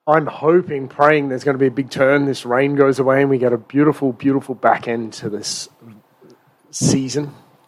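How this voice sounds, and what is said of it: Slight foreign accent. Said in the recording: “who has an accent. ... Slight accent. ... he's actually not from here”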